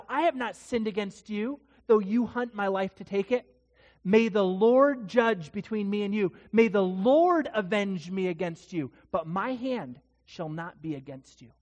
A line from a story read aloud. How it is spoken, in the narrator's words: when he's a long distance away from Saul, he says to Saul, he yells out